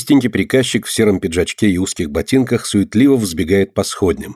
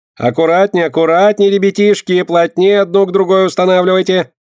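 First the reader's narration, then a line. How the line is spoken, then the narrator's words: High shrill command. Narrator (Russian): командует он высоким визгливым голосом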